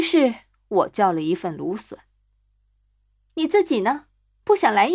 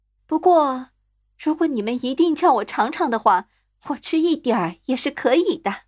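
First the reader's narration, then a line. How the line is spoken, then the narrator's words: Sighing. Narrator (Chinese): 他叹了口气说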